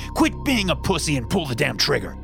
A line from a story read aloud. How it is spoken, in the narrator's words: he yelled